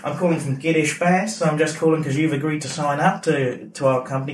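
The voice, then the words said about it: Deliberately bad Australian accent. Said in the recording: “do a call in like a really bad Australian accent”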